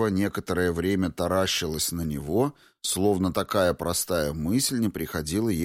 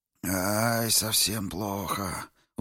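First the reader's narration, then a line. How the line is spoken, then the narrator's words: Old man's sigh. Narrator (Russian): вздохнул старик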